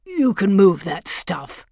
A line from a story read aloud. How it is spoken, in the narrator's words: said gruffly